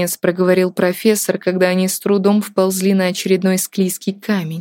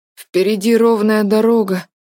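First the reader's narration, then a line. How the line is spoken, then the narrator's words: Tired mutter. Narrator (Russian): уставшим голосом пробормотал Артур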